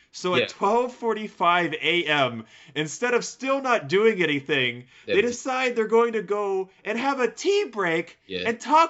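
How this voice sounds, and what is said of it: Yelling, loud agitated speech. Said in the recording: “I know I'm yelling right now”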